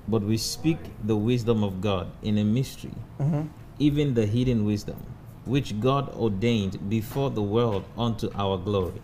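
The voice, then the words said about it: Reads aloud in distinctive accent. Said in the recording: “with your amazing accent”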